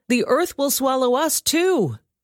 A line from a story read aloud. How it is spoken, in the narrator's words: they cried